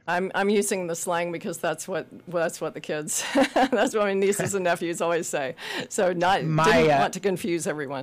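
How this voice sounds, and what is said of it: Southern US accent, mellifluous. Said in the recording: “she has an accent kind of like yours, so the A sounds like an E anyway ... you can't get the Southern out of that accent ... So yes, I'm from Memphis, Tennessee ... it's so much more mellifluous than other kinds of accents”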